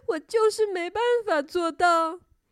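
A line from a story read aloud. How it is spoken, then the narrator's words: Crying. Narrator (Chinese): 它哭着说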